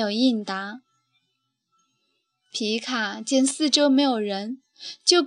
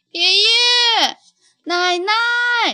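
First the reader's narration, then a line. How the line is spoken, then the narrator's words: Loud, anxious calling. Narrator (Chinese): 总不见爷爷奶奶，皮卡就大声叫了起来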